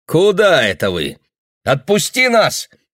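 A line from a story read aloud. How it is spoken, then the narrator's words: Shouting. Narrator (Russian): крикнул Айк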